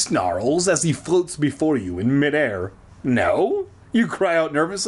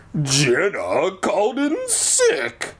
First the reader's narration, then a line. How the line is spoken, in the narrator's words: the warty guy growls